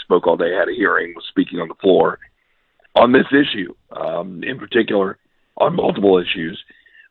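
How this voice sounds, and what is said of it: Worn, strained voice. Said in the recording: “my voice is a little worse for the wear”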